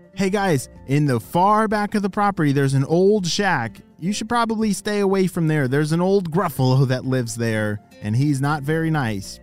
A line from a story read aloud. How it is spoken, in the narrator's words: Their grandparents shouted